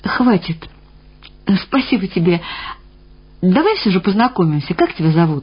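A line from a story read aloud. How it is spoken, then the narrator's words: Quiet, carefully pitched request. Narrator (Russian): Интуитивно подыскав единственно верную интонацию, тихо попросила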